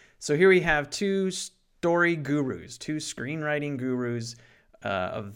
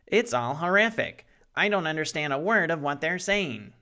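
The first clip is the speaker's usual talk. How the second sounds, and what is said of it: Imitates another person's voice. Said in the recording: “I don't know what Sid Field sounds like, so that's my impersonation of him.”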